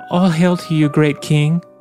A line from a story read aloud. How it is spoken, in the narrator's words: answered the girl in a gentle, trembling voice